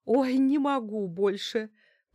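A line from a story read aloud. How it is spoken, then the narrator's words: Moaning. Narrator (Russian): простонала Лариса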